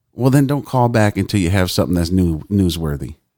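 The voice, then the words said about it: Put-on Southern American accent. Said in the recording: “the Southern accent. Is that a Florida accent? I think I did pretty good on that.”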